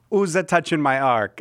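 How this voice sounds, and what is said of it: Italian accent as God. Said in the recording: “God with an Italian accent”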